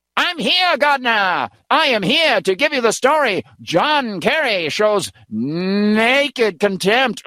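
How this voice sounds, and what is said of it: 1930s-40s newsreel announcer voice. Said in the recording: “do a really good impression of him ... newsreel footage guy coming in from the 1930s and 40s”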